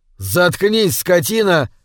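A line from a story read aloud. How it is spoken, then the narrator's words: Yelling. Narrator (Russian): заорал Кэс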